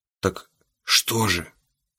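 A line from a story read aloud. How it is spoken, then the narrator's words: Quiet question. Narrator (Russian): тихо спросил я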